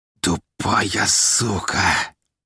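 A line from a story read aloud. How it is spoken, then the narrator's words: Hissed in pain. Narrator (Russian): прошипел он, пытаясь не морщиться от боли, что расплывалось по его телу огненным пожаром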